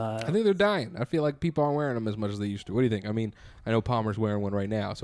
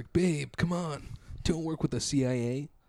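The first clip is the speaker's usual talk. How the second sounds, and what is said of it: Imitates another person's voice. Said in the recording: “my Zooey Deschanel impression”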